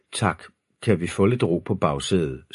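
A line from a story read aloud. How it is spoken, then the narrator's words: Weary sigh. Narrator (Danish): sukkede Thor og Frejas far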